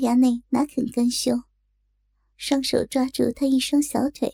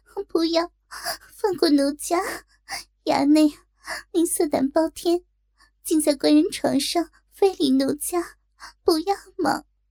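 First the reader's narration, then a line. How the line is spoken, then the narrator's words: Leering laugh. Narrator (Chinese): 高衙内淫笑着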